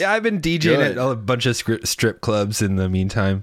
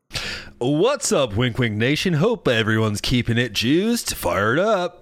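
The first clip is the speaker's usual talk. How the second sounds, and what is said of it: Exaggerated radio DJ voice. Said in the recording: “you've really worked on your radio voice”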